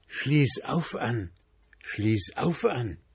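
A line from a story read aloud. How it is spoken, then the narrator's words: Little flame whispering. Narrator (German): flüsterte das Flämmchen wieder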